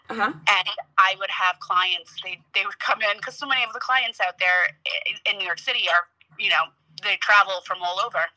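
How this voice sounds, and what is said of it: Thick New York accent. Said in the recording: “I love a good New York accent ... I didn't realize how strong my accent was ... I love your accent ... oh my God, it's thick ... it's just a little thick”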